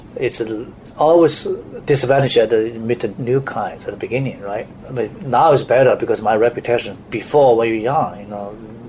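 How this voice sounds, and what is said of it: Strong Chinese accent. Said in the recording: “as a Chinese coming here to the U.S. ... my accent is pretty strong”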